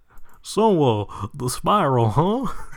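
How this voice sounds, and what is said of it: Failed Goofy impression sounding like Hank Hill. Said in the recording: “That was Hank Hill doing a Goofy impression ... I lost my Goofy ... You found your Hank, though”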